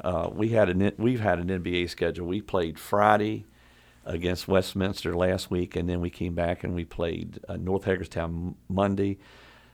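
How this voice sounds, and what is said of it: Tired, worn-out voice. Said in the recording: “sorry about my voice, ... it's just tiredness.”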